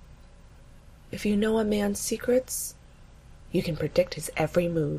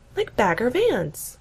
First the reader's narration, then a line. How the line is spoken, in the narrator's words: Gina gasps